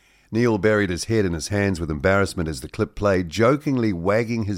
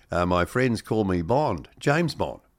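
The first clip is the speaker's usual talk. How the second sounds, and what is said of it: Put-on New Zealand accent. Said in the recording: “in a more Kiwi accent?”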